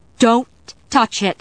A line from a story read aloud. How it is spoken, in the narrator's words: Sarah cried